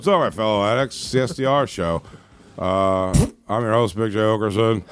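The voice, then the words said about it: So-so impression of another host. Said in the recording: “do a Ralph impression ... I don't do a great Ralph, but it's not a terrible Ralph.”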